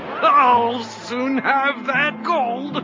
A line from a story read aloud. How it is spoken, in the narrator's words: cried the man